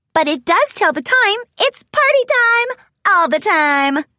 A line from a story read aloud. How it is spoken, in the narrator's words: Pinkie shouted with glee